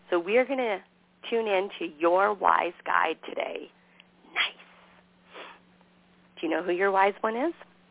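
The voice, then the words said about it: Scratchy voice. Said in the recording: “my voice is getting scratchy”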